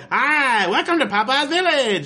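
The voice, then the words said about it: Olive Oyl cartoon voice, Maltese accent. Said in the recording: “doing the voices of the characters from the movie. So in her like Maltese accent, she's doing a Shelley Duvall's Olive Oil talk.”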